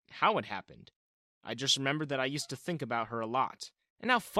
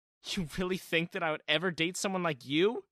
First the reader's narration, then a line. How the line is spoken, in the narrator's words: she had laughed